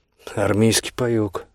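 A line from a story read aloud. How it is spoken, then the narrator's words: Snorting grunt. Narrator (Russian): Аверин хмыкнул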